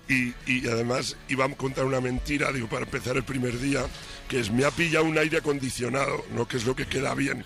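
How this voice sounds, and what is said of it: Hoarse, nearly lost voice. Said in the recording (Spanish): “esa voz como la tiene ... estoy afónico ... estuve cantando como un perro”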